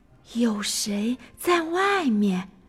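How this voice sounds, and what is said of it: Quiet whispered muttering. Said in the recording (Chinese): “小声的嘀咕”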